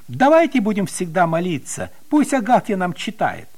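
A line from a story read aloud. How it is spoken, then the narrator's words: Exclaiming. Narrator (Russian): Петя даже воскликнул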